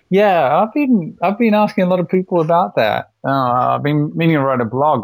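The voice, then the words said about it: English-influenced accent. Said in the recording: “you can probably tell from my accent, I lived in England for a while”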